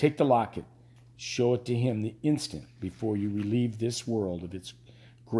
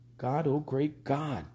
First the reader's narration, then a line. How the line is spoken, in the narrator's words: Peter whispered